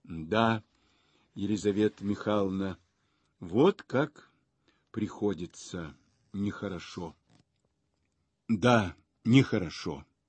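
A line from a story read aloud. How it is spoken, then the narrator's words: Low voice. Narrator (Russian): Он говорил своим низким голосом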